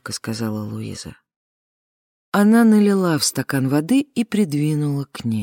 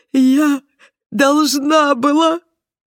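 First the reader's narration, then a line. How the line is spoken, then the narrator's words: Sobbing, broken off. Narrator (Russian): рыдания помешали ей продолжить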